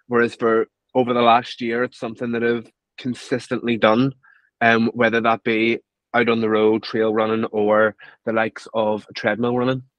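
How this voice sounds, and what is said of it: Belfast Northern Irish accent. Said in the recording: “Listeners can probably hear from your accent that you're from Belfast”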